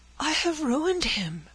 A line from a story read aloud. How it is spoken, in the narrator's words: cried Frances, in terror